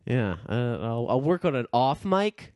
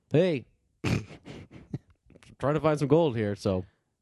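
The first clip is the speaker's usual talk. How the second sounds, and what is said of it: Imitates another person's voice. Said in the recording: “I can do an impression of Parker ... that's just not going to cut it. No, that wasn't good.”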